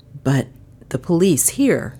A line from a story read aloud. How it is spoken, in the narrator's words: he stammered